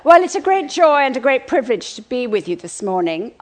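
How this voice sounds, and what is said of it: Unusual accent. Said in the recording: “my rather strange accent, which I think actually the original Virginians probably had”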